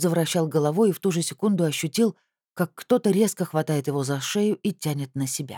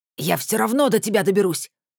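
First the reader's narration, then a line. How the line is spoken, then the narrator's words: Growled. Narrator (Russian): зарычал Иваныч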